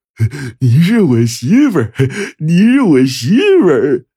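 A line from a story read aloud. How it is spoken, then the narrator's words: Simple-minded cackling. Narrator (Chinese): 这傻汉子见他开口说话了，突然就嘎嘎笑，然后还流着口水说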